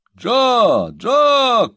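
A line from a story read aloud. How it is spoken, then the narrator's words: Old man shouting. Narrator (Russian): крикнул старый джентльмен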